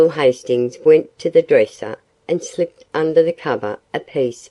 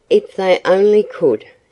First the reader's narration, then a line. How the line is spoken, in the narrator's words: sighed Paul